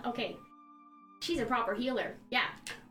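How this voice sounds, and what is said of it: Gnome character voice. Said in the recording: “What did I remember the gnomish people in Kragmandu sound like? ... They sound like gnomes. ... I noticed your voice changed.”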